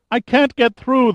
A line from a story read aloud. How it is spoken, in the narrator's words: the woman cried